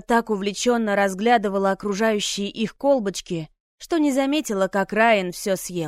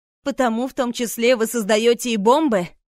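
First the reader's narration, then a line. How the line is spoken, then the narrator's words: Laughing. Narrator (Russian): рассмеялся Райан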